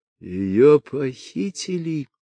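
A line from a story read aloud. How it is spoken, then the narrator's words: Stunned husband moaning. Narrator (Russian): простонал пораженный муж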